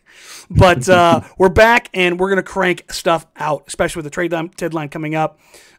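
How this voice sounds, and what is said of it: Sick-sounding voice. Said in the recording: “As you can hear it in my voice, I still sound like crap.”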